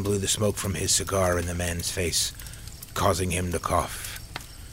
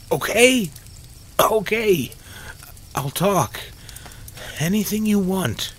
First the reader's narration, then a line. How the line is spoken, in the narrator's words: Mark pleaded, not wanting another beating